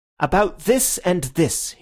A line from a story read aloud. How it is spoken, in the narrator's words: he cried